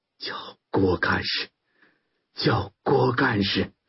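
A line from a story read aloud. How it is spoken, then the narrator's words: Weak, halting voice. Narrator (Chinese): 小马 脸色惨白的 用微弱的声音断断续续的说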